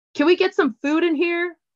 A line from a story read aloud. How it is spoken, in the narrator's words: Briar yelled